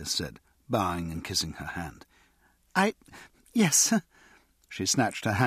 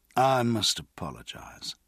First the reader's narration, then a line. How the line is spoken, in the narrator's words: Pierce said smoothly